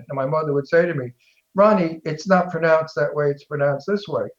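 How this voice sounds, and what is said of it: Strong Brooklyn accent. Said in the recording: “I have a great big Brooklyn accent ... I deliberately speak Brooklyn”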